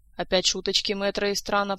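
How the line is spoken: Grumble. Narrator (Russian): проворчала доктор

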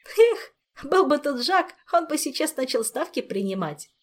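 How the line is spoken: Giggling. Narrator (Russian): хихикнул Мафей

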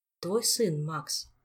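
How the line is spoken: Quiet prompting. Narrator (Russian): тихо подсказал Дэн

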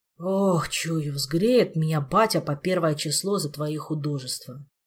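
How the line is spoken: Sighing. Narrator (Russian): вздохнул Кондратий

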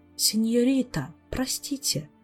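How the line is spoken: Quiet, respectful, apologetic. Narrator (Russian): тихо произнес рядом кто-то почтительно и виновато

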